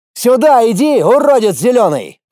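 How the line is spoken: Yelled. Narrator (Russian): заорал

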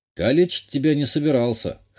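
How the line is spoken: Snorting. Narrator (Russian): хмыкнул я

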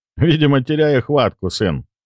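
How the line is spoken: Laughing. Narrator (Russian): рассмеялся мужчина

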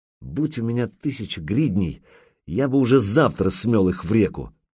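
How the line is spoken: Through gritted teeth. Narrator (Russian): процедил Артем

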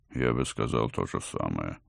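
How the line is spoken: Grumbled under breath. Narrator (Russian): буркнул под нос доктор

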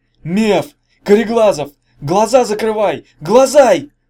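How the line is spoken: Shouting at full strength. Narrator (Russian): Заорал он, что было мочи

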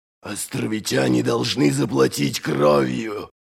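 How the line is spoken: Old warrior growling. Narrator (Russian): прорычал старый одноглазый воин

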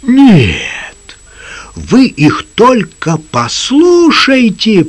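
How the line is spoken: Angry roar. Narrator (Russian): проревел капитан, покраснев от гнева

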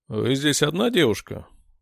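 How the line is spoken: Slightly hoarse voice. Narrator (Russian): прозвучал хрипловатый голос

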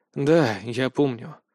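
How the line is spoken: Sighing reply. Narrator (Russian): вздохнув, ответил я

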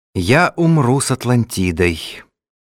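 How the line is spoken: Calm. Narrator (Russian): спокойно ответил Ацрушану

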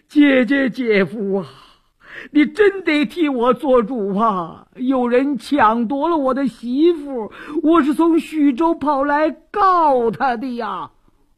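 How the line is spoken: Wailing, sobbing. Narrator (Chinese): 李四禁不住哇哇大哭

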